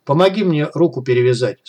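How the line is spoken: Calm madman. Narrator (Russian): спокойным голосом произнес безумный

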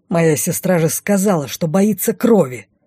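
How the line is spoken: Growled. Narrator (Russian): Прорычал он

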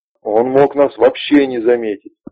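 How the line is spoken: Shouting rook. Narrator (Russian): орал грач

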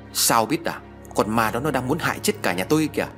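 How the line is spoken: Loud shout. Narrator (Vietnamese): Hùng quát lớn

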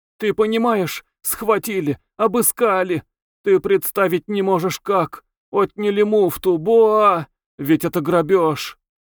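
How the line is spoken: Sobbing. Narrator (Russian): рыдая

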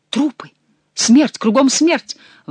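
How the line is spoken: Exclaiming. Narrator (Russian): воскликнул молодой человек

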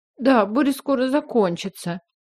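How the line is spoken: Girl sobbing. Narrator (Russian): всхлипнула девочка

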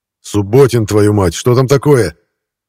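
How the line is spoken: Shouting after someone. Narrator (Russian): крикнул вслед Архипов

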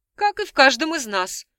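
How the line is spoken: Doctor's skeptical snort. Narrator (Russian): хмыкнул доктор

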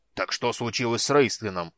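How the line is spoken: Dwarf's impatient bark. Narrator (Russian): рявкнул гном, не выдержав

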